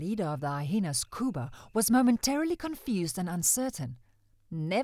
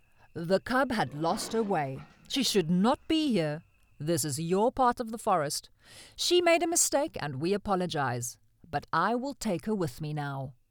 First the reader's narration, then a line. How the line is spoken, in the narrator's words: In a slow, confident voice, he said